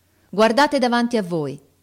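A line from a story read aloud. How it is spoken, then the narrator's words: Officer shouting. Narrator (Italian): gridò l'ufficiale ai soldati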